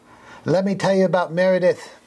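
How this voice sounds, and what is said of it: Poor put-on accent. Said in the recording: “I don't know why I'm doing this accent. I do a terrible accent.”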